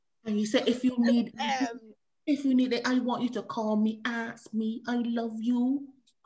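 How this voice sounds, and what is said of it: Bajan accent. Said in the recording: “hearing this in the Bajan accent is just, just doing it”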